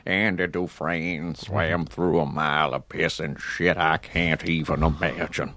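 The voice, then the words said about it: Imitates another person's voice. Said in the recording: “I shifted into Morgan Freeman, which I do sometimes ... It's a good impression. I mean, it's a really good... This isn't me, but Morgan Freeman.”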